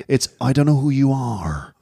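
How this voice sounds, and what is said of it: Northern Irish accent with American tinge. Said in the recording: “his accent?... he's kind of like a Northern Ireland... Gone to California... So it's not R. It's not a R sound.”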